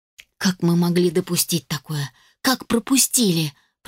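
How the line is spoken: Tearful, choked whisper. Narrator (Russian): прошептала я, чувствуя, как на глазах наворачиваются слезы и становится больно дышать

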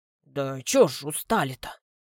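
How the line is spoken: Mumbled. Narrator (Russian): бормочет Георгий

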